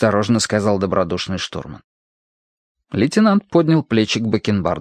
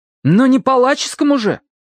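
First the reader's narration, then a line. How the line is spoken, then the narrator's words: Heated exclamation. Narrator (Russian): запальчиво воскликнул Митя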